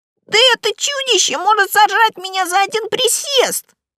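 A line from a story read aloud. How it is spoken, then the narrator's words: Offended squeal. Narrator (Russian): Пушок обиженно взвизгнул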